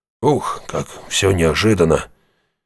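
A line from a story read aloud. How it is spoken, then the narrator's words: Sighing again. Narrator (Russian): Иго опять вздохнул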